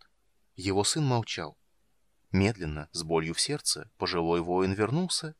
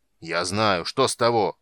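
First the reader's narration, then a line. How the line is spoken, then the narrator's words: Growled. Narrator (Russian): прорычал Карамон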